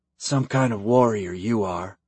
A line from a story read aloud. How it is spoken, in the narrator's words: Kyle muttered